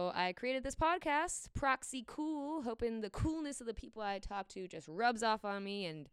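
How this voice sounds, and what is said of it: Usual voice. Nothing is said of it.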